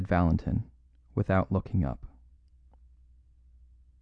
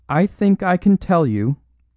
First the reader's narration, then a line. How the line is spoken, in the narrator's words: cried Lady Margaret, in that clear, quivering voice with which a courageous woman speaks publicly